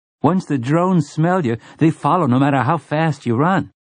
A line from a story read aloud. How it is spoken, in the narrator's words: Slightman's boy said eagerly